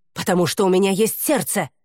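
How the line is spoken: Barked. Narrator (Russian): рявкнула Нуада

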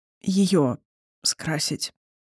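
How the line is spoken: Strained forced words. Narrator (Russian): выдавил Эндан

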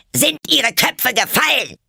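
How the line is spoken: Queen shouting. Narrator (German): schrie die Königin sie an

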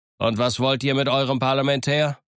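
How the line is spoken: Call. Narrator (German): rief

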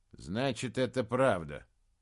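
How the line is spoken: Gloomy question. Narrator (Russian): мрачно спросил Фенгболд

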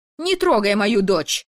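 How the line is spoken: Screaming. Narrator (Russian): Вопит графиня

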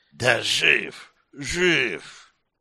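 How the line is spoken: Strange hissing voice. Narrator (Russian): не узнав своего голоса, больше похожего на шипение

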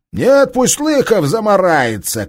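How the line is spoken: Killer shouting. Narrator (Russian): крикнул убийца

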